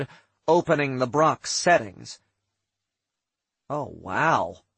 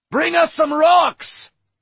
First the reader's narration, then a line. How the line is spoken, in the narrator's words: Droy thundered